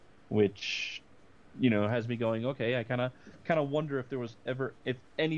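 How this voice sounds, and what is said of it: Usual voice. Nothing is said of it.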